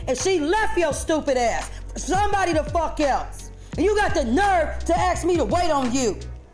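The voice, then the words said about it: Angry yelling. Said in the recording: “I'm yelling because I'm mad”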